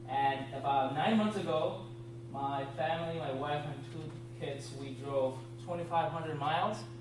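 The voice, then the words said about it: Puerto Rican accent. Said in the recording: “there are more Puerto Ricans in Orlando than in Puerto Rico... if for whatever reason you do not understand my accent”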